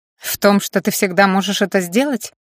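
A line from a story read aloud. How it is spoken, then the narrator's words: Smirking grunt. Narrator (Russian): хмыкнула Аня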